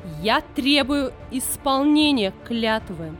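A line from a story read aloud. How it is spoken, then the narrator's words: Witch's icy furious shout. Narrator (Russian): закричала ведьма, чей гнев блистал, словно ледяная молния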